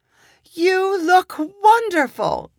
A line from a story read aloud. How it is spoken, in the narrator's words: cried Sunshine